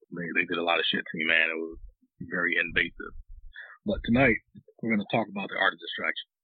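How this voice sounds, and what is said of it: Weak, strained, partly lost voice. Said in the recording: “I sound kind of weird today because my voice is still kind of gone.”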